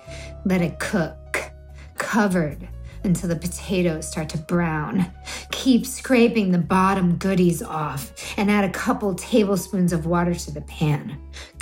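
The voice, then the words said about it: Exaggerated sexy, sultry reading voice. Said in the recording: “sexy voice, not Viking ... This is my sexy voice”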